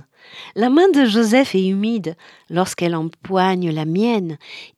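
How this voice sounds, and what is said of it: Non-native accent in French. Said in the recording (French): “mon accent s'il est très mauvais”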